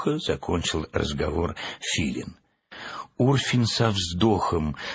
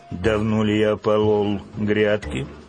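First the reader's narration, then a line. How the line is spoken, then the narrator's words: Grumbling. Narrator (Russian): проворчал Урфин Джуз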